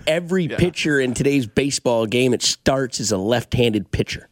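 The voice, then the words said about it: Imitates another person's voice. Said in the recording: “Such a good Binkley impression. I've never heard anybody else that does a Binkley impression.”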